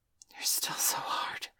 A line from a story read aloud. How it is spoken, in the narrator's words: she whispered, grinning like a wolf